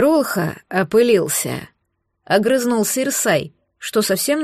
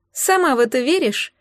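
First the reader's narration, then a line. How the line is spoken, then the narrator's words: Skeptical snort. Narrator (Russian): скептически хмыкнула Марго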